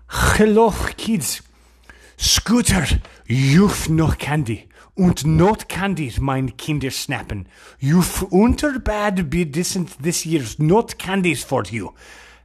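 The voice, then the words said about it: Put-on German accent. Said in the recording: “That's my German accent.”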